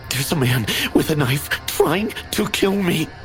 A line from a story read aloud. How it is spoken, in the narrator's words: I gasped